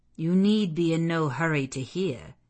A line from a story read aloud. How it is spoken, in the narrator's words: he said